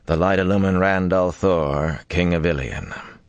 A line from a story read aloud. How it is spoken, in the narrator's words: he intoned